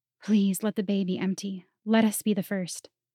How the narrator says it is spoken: I whispered to the sea

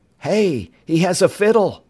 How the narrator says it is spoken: Bud exclaimed

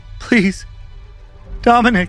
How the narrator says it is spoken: Megs now pleaded

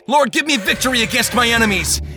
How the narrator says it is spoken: Christian called out

